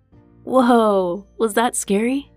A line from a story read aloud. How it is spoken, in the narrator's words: Seb chuckled